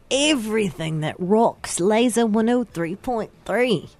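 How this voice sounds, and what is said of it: Put-on British accent. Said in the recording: “Do you do a British accent? ... I do British.”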